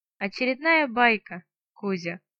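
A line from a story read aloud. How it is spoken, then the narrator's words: Short laugh. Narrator (Russian): хохотнула я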